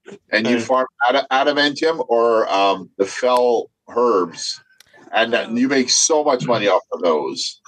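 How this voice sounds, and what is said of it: Canadian accent. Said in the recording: “Canadian accent”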